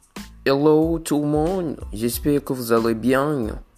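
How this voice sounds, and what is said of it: Poor attempt at Québécois accent. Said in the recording (French): “j'étais en train d'essayer d'imiter. Je suis en train d'essayer d'apprendre l'accent québécois. Et c'est de la merde.”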